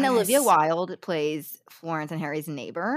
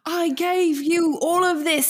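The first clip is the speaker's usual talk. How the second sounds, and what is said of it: Imitates another person's odd accent. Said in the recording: “making fun of the scene of Harry going ... The reason his accent is so bad ... why his accent is no odd”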